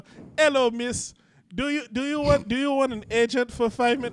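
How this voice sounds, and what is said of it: Put-on Eastern European accent. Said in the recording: “those especially those Eastern Bloc ones where they go ... it's the same accent you use for everything”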